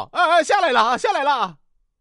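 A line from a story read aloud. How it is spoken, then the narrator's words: Hurried reply. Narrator (Chinese): 高升赶忙答道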